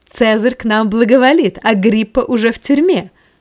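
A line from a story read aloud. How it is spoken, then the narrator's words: Loud triumphant exclamation. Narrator (Russian): радость торжества озаряла ее лицо, ободряя оцепеневшего тетрарха, она громко воскликнула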